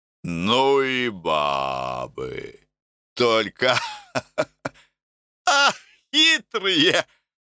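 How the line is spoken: Cheerful mutter. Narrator (Russian): весело ухмылялся и бормотал себе в бороду

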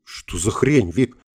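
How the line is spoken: Bewildered. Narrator (Russian): растерянно спросил Гельмут

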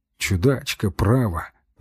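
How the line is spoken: Mutter. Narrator (Russian): бормочу

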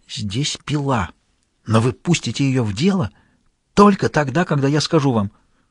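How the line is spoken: Fearful whisper. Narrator (Russian): шепнул со страхом

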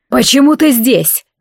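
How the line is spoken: Man yelling. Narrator (Russian): заорал мужчина

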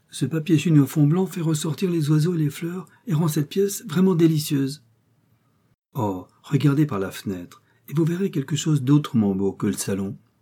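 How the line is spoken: Exclaimed. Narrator (French): s'écria Florence

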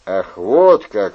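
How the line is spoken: Mocking interjection. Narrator (Russian): вмешался Брике, насмешливо улыбаясь

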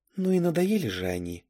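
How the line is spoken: Muttering. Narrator (Russian): пробормотала

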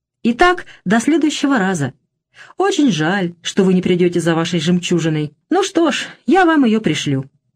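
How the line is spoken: Light, courteous tone. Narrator (Russian): продолжала все тем же легким, любезным тоном

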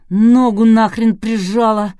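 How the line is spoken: Groaned. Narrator (Russian): простонал осветитель

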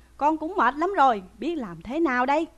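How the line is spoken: Crying out. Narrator (Vietnamese): Lý Quỳ lại kêu lên rằng

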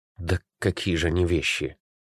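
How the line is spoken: Uncertain objection. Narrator (Russian): неуверенно возразил Костя

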